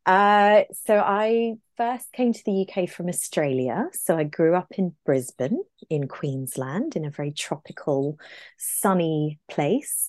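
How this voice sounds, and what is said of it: Non-British English accent. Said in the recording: “doesn't have a UK accent.”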